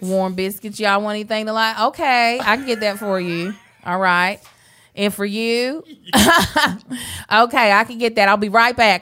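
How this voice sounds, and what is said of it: Put-on Southern accent. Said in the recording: “That Southern accent is just driven with the sizzle.”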